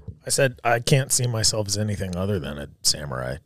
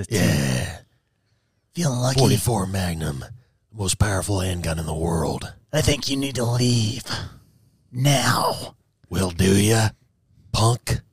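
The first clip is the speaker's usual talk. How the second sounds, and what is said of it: Imitates another person's voice. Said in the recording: “Do your Clint Eastwood impression. ... Yeah, that's good.”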